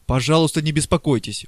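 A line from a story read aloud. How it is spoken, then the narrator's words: Exclaiming. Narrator (Russian): воскликнул Преста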